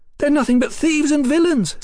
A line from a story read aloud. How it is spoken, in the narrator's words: Sybil shouted alertly